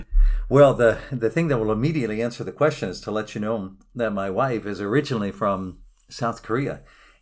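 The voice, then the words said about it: American English accent. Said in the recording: “as our listeners will quickly be able to work out from hearing your voice, your accent, you're an American”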